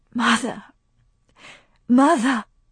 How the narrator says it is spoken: she whispered

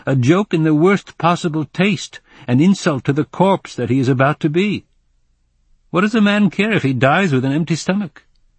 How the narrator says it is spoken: I said loudly

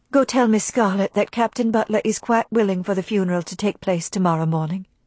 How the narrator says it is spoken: she whispered

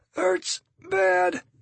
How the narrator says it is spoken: the kid says between gasps and grimaces

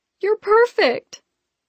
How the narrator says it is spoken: burst into tears, and shouted

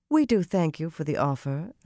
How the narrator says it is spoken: Elias replied smoothly

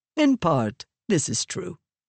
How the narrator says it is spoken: Raboniel said

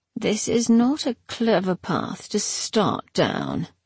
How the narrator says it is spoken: she said softly

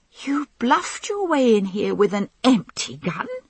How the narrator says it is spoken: croaked hysterically

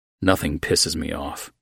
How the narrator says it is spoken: I mumbled

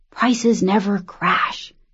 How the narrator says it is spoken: her father had whispered

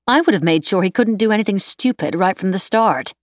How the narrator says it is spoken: Nanette said sharply

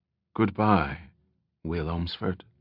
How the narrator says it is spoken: she said quietly

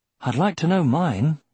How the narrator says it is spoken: Aragorn said wistfully

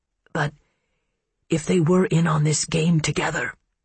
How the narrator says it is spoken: she croaked

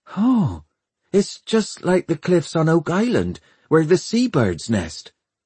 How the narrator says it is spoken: she cried

